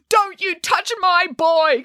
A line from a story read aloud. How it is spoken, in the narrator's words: cried Geppetto